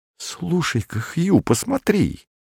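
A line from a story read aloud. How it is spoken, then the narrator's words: Sudden frightened whisper. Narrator (Russian): испуганным шепотом произнес вдруг костлявый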